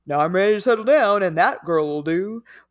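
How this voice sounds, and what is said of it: Fred Flintstone-style Southern drawl. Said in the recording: “I don't know why I just started talking like Fred Flintstone ... the Georgia accent ... my accent was much closer to Yogi Bear than”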